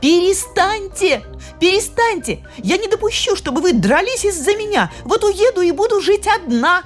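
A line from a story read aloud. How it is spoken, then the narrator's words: Shrill scream. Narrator (Russian): Сьюзен закричала пронзительно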